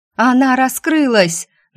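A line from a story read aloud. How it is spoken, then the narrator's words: Anguished scream, nearby. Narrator (Russian): надрывно закричала женщина, где-то совсем близко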